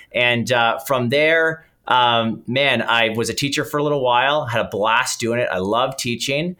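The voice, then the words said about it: Canadian English accent. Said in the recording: “although I'm Canadian, people will probably pick up the accent.”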